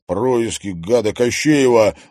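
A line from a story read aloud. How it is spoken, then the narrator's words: Angry grumble. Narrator (Russian): злобно буркнул Димка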